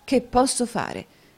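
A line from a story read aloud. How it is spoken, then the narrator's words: Irritated, embarrassed exclamation. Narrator (Italian): esclamò Newman con un'aria di grande irritazione e imbarazzo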